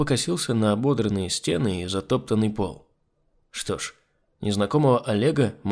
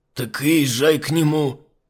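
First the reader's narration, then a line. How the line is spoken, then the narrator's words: Master's angry curt remark. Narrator (Russian): сердито бросил хозяин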